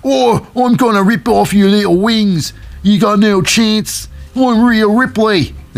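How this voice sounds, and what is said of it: Put-on Australian accent. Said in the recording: “That's me accent of the Australian style”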